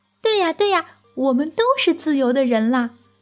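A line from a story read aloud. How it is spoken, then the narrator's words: Child speaking loudly. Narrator (Chinese): 小娃子大声地说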